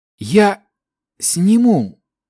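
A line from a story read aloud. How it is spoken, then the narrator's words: Young man's feigned weak rasp. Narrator (Russian): изображая слабость, прохрипел парень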